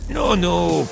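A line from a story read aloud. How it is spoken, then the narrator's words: Drawn-out, old man. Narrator (Russian): протянул старик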